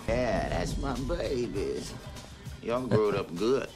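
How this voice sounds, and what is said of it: Cajun accent. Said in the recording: “that's a great Cajun accent.”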